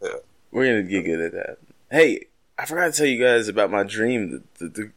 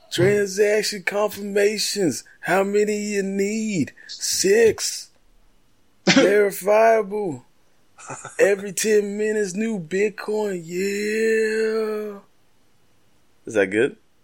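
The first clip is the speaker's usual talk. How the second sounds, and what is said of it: Imitates a celebrity's voice. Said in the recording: “impersonating a black celebrity”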